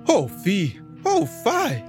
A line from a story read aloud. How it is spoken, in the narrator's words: cried the cleanly rat, quite shocked at the sight